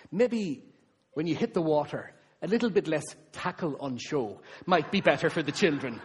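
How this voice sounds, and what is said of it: Imitated Cork Irish accent. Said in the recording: “this pregnant Irish woman from Cork ... I'm going to try and do the accent”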